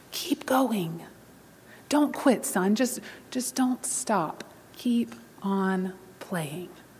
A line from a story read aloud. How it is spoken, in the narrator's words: the master pianist whispered in the little boy's ear